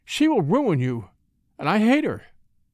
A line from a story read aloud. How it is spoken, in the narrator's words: exclaimed